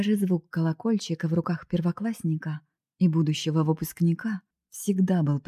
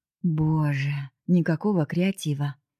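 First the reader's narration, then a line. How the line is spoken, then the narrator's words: Indifferent sigh. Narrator (Russian): безучастно вздохнул Женя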